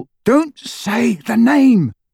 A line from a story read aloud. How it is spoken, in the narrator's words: Ron cut across her, his voice harsh